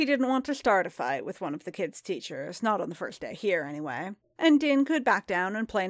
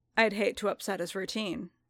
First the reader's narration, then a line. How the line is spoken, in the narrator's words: Din said blandly